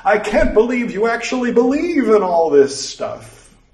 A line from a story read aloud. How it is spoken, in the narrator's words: Andy jumped out from behind something, laughing and saying